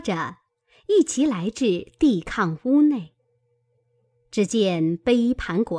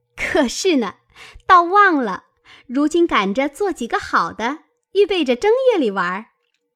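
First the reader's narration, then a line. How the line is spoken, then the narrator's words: Laughing, several voices. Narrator (Chinese): 都笑道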